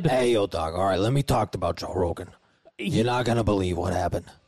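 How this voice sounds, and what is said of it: Imitates another person's voice. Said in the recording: “doing a Joey Diaz impersonation”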